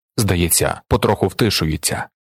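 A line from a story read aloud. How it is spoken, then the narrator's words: Plain. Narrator (Ukrainian): сказав хтось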